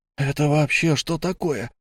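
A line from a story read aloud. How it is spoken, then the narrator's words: Hoarse rasp. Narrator (Russian): прохрипел мой сосед слева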